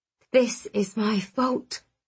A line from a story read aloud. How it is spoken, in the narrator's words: I whispered